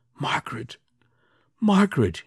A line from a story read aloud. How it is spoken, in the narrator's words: he whispered